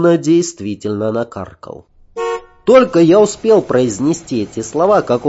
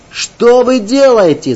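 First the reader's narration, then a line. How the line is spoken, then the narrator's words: Struggling shout. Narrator (Russian): закричал я, делая неуклюжие попытки освободиться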